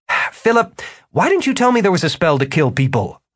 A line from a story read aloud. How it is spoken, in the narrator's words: Martin sputtered